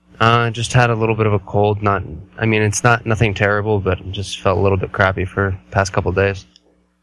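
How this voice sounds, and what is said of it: Slightly hoarse voice. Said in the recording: “getting over a little bit of a cold ... my voice might be a little hoarse”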